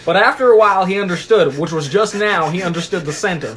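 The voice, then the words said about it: Put-on country accent. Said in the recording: “I'm still in the country accent.”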